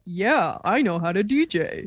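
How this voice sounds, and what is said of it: Mocking impression of a friend. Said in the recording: “That's not how I sound. ... Great Eric impression.”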